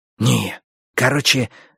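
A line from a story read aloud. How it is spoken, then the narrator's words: Whisper. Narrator (Russian): зашептал он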